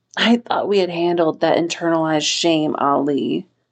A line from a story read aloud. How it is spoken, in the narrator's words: Wen Qing said mournfully